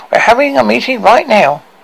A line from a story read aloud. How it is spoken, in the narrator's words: she squeaked to her ear-piercing volume